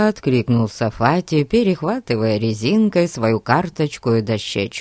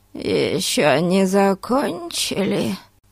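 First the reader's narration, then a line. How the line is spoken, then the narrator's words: Hoarse grating voice, sneezing. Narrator (Russian): спросила она хриплым, противно скрежещущим голосом, чихнув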